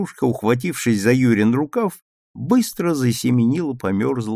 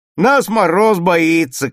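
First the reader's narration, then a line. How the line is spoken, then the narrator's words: Shouting. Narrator (Russian): кричал Саша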